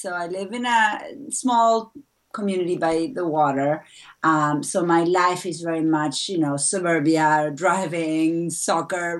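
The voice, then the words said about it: Argentine-accented English. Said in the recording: “my accent, I'm going to address my accent ... I'm originally from Buenos Aires, Argentina”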